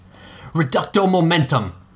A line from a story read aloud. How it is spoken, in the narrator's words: she shouted